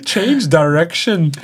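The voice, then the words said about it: Poor imitation of Liverpool accent. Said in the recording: “he's got this beautiful Liverpool accent ... I've butchered that obviously”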